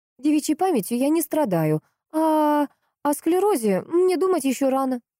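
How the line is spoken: Curt, cutting. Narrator (Russian): отрезала Поликсена

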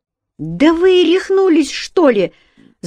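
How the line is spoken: Woman shouting, languor dropped. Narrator (Russian): закричала женщина, вмиг отбросив всю томность и певучесть

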